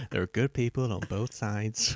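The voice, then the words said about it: Poor imitation of another person's voice. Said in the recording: “that was a terrible impression.”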